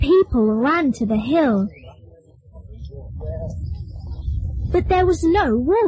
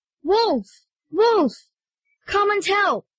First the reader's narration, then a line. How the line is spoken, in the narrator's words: He shouted